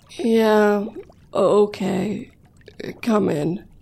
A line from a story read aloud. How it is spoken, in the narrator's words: Jason said, his voice quivering slightly